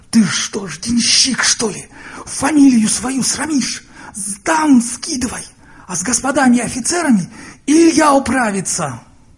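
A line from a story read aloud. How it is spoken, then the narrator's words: Hissing lady. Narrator (Russian): барыня зашипела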